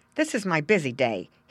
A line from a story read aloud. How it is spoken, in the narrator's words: he said impatiently